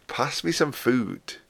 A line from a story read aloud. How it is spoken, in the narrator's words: he chuckled